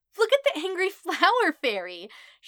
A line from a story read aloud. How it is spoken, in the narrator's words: she shrieks, snorts, and giggles, from her glee